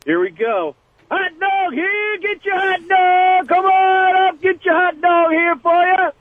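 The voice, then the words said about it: Loud stadium hot dog vendor call. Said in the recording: “He's got a hot dog call ... You sound like a pro.”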